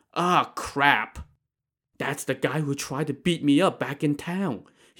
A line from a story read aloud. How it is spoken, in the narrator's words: he whispered